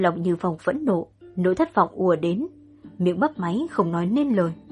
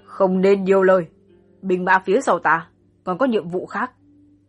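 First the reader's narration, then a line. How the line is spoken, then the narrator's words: Cold voice. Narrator (Vietnamese): âm thanh lạnh lùng vang lên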